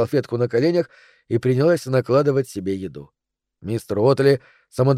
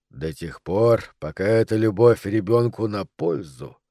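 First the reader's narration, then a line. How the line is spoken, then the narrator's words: More serious tone. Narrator (Russian): проговорил мистер Уотли уже более серьезным тоном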